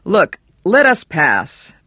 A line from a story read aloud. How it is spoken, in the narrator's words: Bannerman said, raising his voice